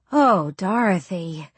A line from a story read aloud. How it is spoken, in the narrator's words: Miss Larson sighs